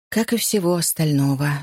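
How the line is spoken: Sighed. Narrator (Russian): вздохнула мисс Харкарт

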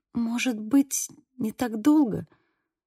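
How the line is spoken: Whisper. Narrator (Russian): прошептала Сьюзи

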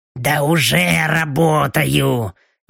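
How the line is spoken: Displeased grumble. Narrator (Russian): недовольно проворчала Белочка

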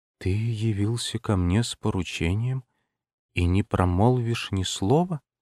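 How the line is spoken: Quiet. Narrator (Russian): тихо произнесла

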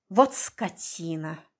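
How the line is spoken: Cursing through teeth. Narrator (Russian): Сквозь зубы выругалась она

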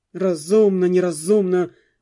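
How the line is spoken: Irritated grumble. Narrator (Russian): в раздражении пробурчал посол

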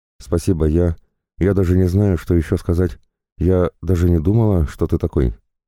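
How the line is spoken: Timid voice. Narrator (Russian): Девушка сказала

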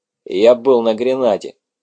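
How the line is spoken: Gloomy. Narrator (Russian): мрачно ответил Сэм

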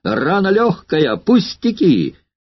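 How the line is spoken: Loud shout. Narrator (Russian): Ретиарий громко закричал

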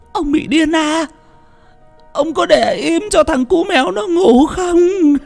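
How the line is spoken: Exhausted shrieking old woman. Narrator (Vietnamese): bà ấy chỉ đưa tay ôm mặt mà rít lên

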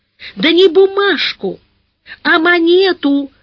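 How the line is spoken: Tearful shout. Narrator (Russian): закричала со слезами на глазах Капитолина

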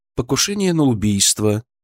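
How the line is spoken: Even tone. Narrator (Russian): ровным тоном сообщил я

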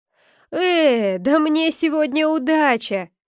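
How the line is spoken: Laughing. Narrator (Russian): рассмеялся лесной бродяга

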